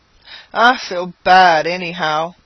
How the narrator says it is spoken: with a smothered groan

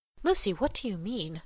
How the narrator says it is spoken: said she under her breath

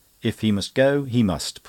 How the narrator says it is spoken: put in Mary firmly

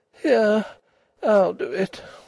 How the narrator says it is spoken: she said wearily

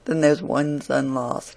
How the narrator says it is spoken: she said it in a very mournful tone, as one greatly concerned at it

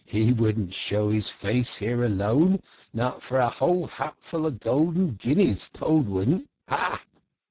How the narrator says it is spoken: said the rat, laughing heartily

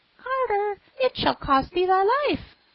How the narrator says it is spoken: The sparrow cried

